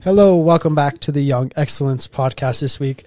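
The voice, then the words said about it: Congested voice from a cold. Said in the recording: “my voice sounds awful this week. I've got a little bit of a cold,”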